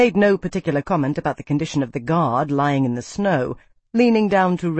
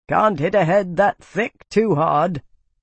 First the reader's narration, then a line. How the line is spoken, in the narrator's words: Haga muttered